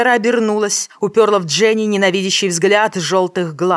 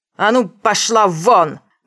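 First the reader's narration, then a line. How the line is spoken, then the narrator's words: Loud barked command. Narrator (Russian): гаркнула девушка не хуже Роджера Брэдли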